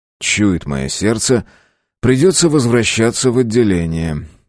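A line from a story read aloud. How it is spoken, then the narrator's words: Sighing. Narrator (Russian): вздохнул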